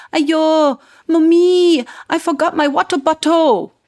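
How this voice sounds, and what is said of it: Imitated Singapore English accent. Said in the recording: “spoke full-on Singapore English to me that she picked up from school”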